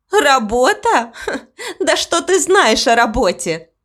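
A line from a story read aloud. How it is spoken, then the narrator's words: Laughing speech. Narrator (Russian): засмеялась гостья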